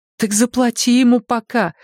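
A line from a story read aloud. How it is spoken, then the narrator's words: Pleading. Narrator (Russian): взмолилась сестра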